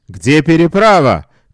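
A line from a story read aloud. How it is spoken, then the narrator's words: Shouting. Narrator (Russian): кричал швед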